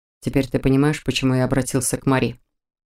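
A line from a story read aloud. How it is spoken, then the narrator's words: Quiet question. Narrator (Russian): тихо поинтересовался Мор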